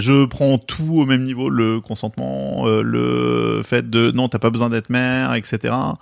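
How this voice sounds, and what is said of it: Bordeaux French accent. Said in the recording (French): “j'ai un accent bordelais pour tout le monde... Je sais que ça choque... Je, je, dis rose, chauve, jaune.”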